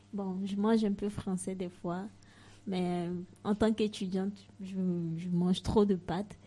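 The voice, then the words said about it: African-accented French. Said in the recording (French): “comme vous aurez dû l'entendre, accent africain”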